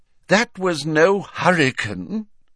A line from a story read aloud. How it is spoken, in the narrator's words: said Fudge miserably